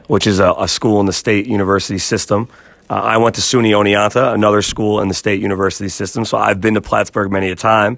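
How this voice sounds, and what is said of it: New York accent. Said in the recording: “I feel like you got a New York accent.”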